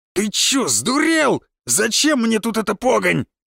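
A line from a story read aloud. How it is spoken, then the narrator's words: Yelling, village elder. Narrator (Russian): завопил староста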